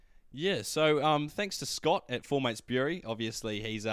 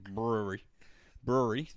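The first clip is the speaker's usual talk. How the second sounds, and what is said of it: Put-on Southland accent. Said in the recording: “I'm going to do Southland accent.”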